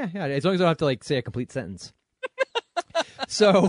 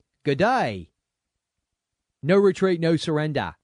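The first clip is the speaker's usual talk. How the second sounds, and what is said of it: Put-on Australian accent. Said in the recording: “my really lame Australian accent ... That was a little better.”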